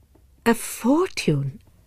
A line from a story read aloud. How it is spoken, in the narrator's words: Madame Merle softly repeated